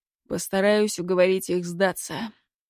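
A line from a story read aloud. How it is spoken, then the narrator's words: Sighing. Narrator (Russian): вздохнул Руденчик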